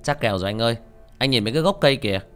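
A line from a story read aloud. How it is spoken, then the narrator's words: Loud laughter. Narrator (Vietnamese): Sinh cười lớn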